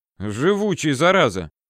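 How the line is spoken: Feigned displeased snort. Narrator (Russian): хмыкнул я сделанным недовольством

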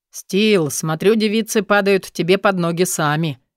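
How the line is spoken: Mocking chuckle. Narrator (Russian): хохотнул мажор

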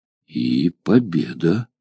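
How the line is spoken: Dazed mutter. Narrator (Russian): пробормотал, еще не вполне пришедший в себя от изумления

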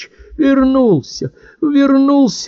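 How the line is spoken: Muffled sobbing. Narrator (Russian): уткнувшись лицом в грудь ... всхлипывала

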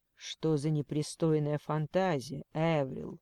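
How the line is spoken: Muttered. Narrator (Russian): пробормотал

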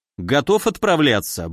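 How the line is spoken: Cheerful question. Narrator (Russian): бодро спросил я

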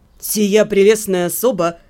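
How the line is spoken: Cold. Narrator (Russian): холодно произнес Себастьян

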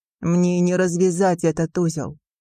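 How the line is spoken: Plain. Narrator (Russian): ответил Макэдан

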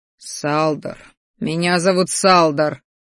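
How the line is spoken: Displeased grumble. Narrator (Russian): недовольно проворчал я

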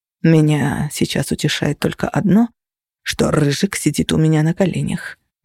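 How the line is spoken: Whispered in ear. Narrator (Russian): прошептали мне на ухо

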